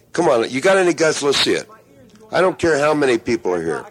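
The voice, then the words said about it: Loud yelling voice. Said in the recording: “your big loud voice is killing me ... I'm sorry I'm yelling.”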